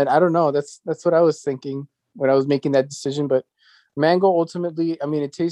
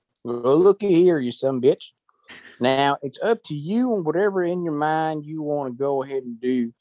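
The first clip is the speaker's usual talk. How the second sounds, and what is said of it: Put-on Southern country accent. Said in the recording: “the devil has to have a southern accent ... country, ... like a country accent. ... Oh, like a country accent.”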